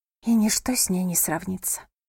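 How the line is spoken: Whisper. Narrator (Russian): прошептала Лотти

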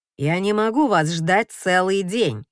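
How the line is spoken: Irritated. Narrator (Russian): раздраженно замечает чиновник

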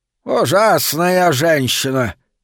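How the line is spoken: Grumbling. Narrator (Russian): пробурчал он наконец

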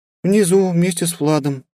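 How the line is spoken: Sad sigh. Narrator (Russian): печально вздохнула Эльнара, видимо, уже настроившись на дополнительную награду

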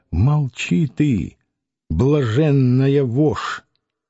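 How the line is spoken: Quiet, threatening. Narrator (Russian): Клим Самгин тихонько сказал

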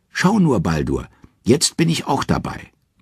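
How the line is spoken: Calling out. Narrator (German): Und Hoth ruft

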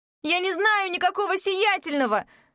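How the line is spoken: Yelling. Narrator (Russian): заорала я

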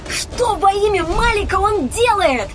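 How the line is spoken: Shout. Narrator (Russian): Прокричала я

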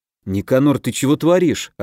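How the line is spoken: Confused mutter. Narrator (Russian): растерянно пробормотал я, не понимая, что нашло на магика

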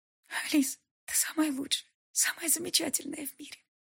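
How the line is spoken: Whispering. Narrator (Russian): шептала она

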